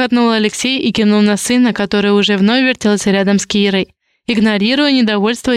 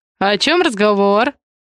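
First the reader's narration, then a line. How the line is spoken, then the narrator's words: Cheerful inquiry. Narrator (Russian): весело поинтересовался Алексей Самойлов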